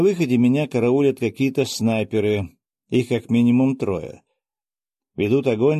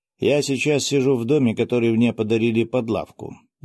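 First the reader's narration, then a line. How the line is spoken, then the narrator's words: Completely calm. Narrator (Russian): заговорил я совершенно спокойно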